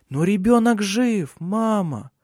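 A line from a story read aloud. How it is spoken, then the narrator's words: Soft. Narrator (Russian): мягко сказала Шарлотта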